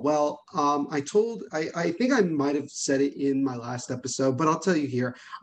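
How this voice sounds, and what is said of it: Quiet, low-toned speech. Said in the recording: “why am I talking so quietly? Why is my tone of voice so low?”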